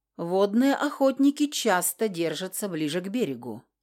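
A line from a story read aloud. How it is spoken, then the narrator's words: Calm, almost yawning. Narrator (Russian): спокойно ответил он, едва ли не зевнув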